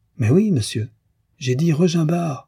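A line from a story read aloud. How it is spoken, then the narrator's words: Exasperated exclamation. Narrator (French): s'écria Frédéric exaspéré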